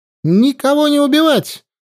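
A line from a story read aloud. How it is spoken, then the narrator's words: Valkyrie shouting. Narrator (Russian): закричала валькирия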